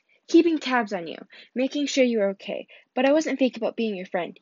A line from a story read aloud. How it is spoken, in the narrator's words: added hastily